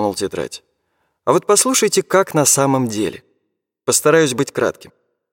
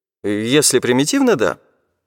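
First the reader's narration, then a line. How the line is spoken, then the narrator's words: Displeased academic's tone. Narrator (Russian): не очень довольным тоном сказал академик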